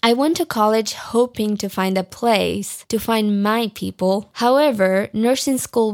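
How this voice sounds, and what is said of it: Non-native English accent. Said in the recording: “So sure you've heard my accent. I'm working on it, but pronunciation in English, my friends, is very hard.”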